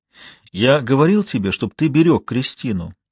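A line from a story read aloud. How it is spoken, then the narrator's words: Strained forced calm. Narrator (Russian): объяснил как можно спокойнее, но, видимо, все же не так спокойно, как мне хотелось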